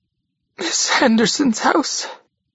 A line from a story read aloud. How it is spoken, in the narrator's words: gasped